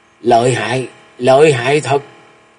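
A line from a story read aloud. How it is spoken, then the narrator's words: Shaken wounded old man muttering. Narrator (Vietnamese): Lão run rẩy toàn thân và mửa ra một búng máu, miệng lẩm bẩm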